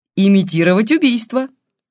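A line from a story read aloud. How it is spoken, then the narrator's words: Cheerful reply. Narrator (Russian): Весело ответил за Бабкина Илюшин, не выдержав молчания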